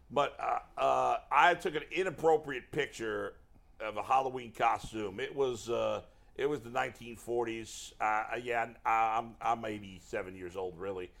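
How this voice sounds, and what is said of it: Put-on Southern accent. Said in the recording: “I don't know why I've given like a Southern accent because you don't really have a Southern accent”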